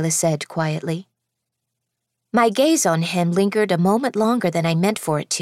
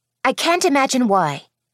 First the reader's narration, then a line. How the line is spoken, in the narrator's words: I snapped